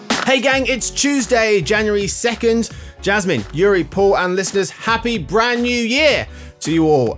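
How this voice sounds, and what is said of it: Yelling, loud excited greeting. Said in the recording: “I don't know why I'm yelling.”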